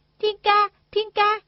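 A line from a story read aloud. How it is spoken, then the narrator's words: Loud calling. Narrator (Vietnamese): Đinh Đan lớn tiếng la gọi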